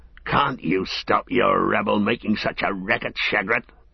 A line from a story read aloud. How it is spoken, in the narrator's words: grunted the one